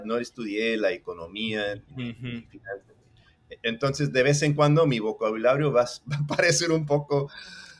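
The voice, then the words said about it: Mexico City Spanish accent. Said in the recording (Spanish): “decimos que tengo acento chilango”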